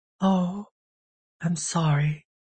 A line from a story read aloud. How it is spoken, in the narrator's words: she whispered